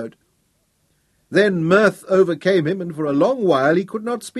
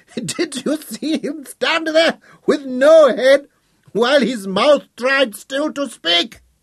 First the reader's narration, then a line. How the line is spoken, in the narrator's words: roared, tears of laughter